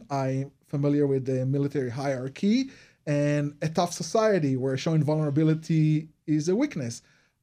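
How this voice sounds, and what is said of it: Israeli accent. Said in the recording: “you notice my accent. So I'm originally from Israel.”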